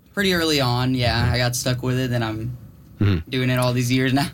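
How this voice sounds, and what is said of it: American accent. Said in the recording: “your Italian accent sounds very American.”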